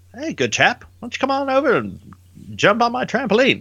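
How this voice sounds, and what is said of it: Bad put-on English accent. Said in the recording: “That was a really bad English accent.”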